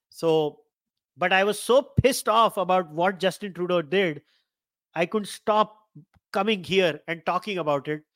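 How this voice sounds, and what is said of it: Cracking, hoarse voice with a cold. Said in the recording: “my voice has now started to crack ... I really apologize to all of you about my voice. I have a cough and cold.”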